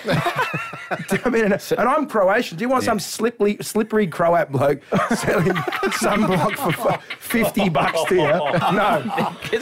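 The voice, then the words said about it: Broad Australian accent. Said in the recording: “No accent though. I love that. ... You're still dinky die Aussie accent.”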